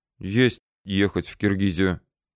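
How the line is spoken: Gloomy agreement. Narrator (Russian): мрачно согласился Ежов

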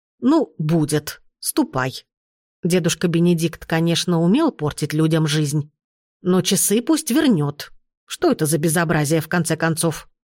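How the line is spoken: Stern. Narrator (Russian): строго сказала

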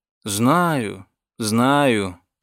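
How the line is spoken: Sad sigh. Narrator (Russian): печально вздохнул доктор Редбоун

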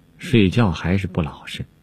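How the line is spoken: Sighing. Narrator (Chinese): 宝玉叹道

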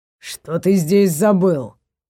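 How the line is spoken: Muttered through clenched teeth. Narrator (Russian): процедил Варгор сквозь зубы

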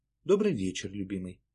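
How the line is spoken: Affectionate. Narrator (Russian): ласково проговорила Шпилька

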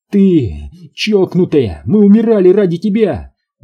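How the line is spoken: Shout. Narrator (Russian): выкрикнула Фаштоми

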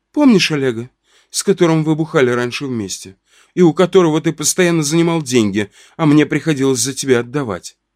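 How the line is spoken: Calm statement. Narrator (Russian): мамка спокойно сказала бате

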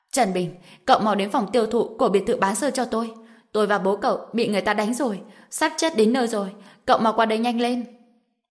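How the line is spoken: Shouting over the phone. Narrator (Vietnamese): Dương Quế Lan gọi điện thoại cho Trần Bình rồi hét lên

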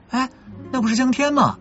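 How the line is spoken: Sudden cry. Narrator (Chinese): 李玉忽然叫了一声

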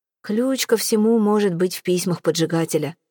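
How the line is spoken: Gloomy. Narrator (Russian): уныло произнес Ксавье Трюшон

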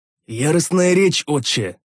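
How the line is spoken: Strained wheeze after drinking. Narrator (Russian): с трудом проглотив гномью настойку, просипел я

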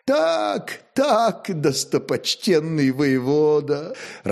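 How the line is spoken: Upset sigh. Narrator (Russian): расстроенно вздохнул Мойша

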